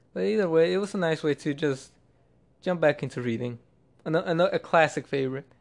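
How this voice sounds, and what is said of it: Slightly monotone voice. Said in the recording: “my voice has been monotone ... my voice sounds a tiny bit monotone”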